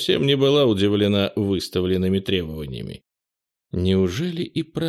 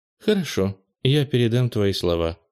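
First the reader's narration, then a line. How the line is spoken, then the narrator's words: Calm. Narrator (Russian): спокойно кивнула Марианелла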